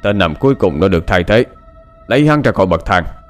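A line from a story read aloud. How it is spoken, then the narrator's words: Roaring. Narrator (Vietnamese): gầm lên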